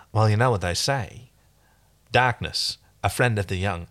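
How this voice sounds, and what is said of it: Imitating Chiana's inconsistent Aussie-American accent. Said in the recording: “I'm doing the thing where she had a very inconsistent accent early on, right. And sometimes she'd go Aussie and sometimes she'd do American. Let's see if that helps you identify who Chiana is.”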